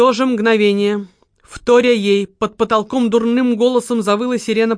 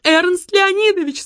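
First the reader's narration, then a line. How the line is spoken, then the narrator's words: Sudden cry. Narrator (Russian): скрикнула секретарша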